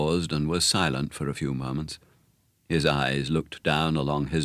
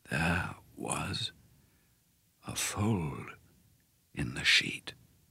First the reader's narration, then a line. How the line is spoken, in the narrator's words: he said, speaking more slowly than ever now, and so softly I had to lean close to hear him